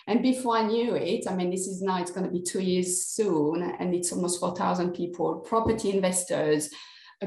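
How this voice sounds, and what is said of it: French accent in English. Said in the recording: “people will pick up that you're not sort of local from the accent ... I'm French ... the accent is not going anywhere”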